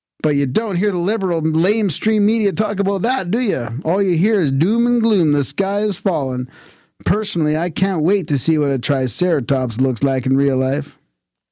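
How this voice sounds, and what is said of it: Imitates another person's voice. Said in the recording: “That was your Sarah Palin accent. ... It's pretty good.”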